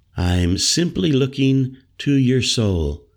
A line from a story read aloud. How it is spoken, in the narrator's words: she told him evenly